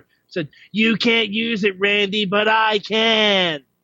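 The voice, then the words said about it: Imitates another person's voice. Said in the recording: “great impression. ... That was an interesting impression.”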